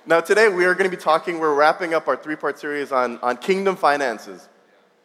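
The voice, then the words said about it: Congested voice. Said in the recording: “if I sound a little congested”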